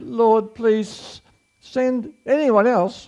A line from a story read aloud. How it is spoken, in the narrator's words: Moses again pleaded